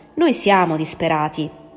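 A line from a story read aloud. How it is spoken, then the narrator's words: Voice less gloomy than usual. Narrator (Italian): disse, con voce meno cupa del solito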